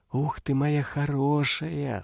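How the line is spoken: Special fond voice. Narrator (Russian): сказала ты особым, треплющим голосом

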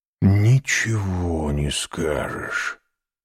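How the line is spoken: Whisper. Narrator (Russian): шепнул Альбер Франсу

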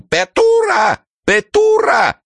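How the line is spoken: Desperate rooster crying loudly. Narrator (Russian): отчаянный петух и кричал на всю улицу

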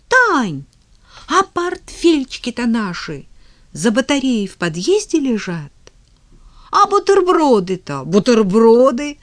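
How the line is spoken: Sudden exclamation. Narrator (Russian): вдруг Тома воскликнула

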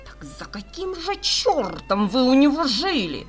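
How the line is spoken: Cat grumbling angrily. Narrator (Russian): сердито буркнул серый кот

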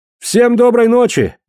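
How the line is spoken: Shouting. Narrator (Russian): выкрикнул Кларк

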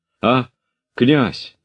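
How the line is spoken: Trembling voice. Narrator (Russian): дрожащим голосом сказал подбежавший Тимохин

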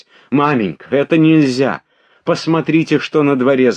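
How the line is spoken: Shouting. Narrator (Russian): закричала она

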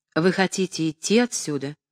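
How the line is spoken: Dry question. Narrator (Russian): сухо спросил Павел Сергеевич

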